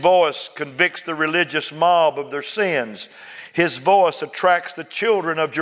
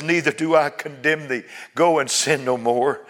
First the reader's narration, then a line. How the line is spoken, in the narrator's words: savior who cries